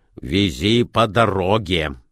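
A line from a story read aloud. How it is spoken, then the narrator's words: Angry postman. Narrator (Russian): сказал сердито почтальон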